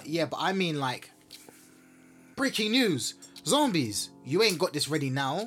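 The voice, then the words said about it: Put-on American accent. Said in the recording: “Why was I doing an American accent like that?”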